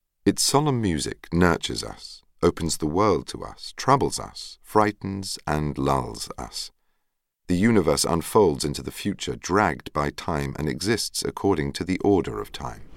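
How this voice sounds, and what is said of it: Charming Italian accent. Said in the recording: “He's got a charming Italian accent.”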